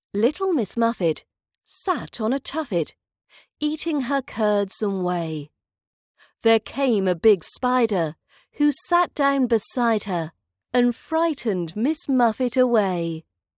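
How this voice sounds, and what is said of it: British English accent. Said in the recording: “British accent training”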